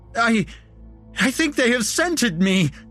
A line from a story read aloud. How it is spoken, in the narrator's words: he shrieked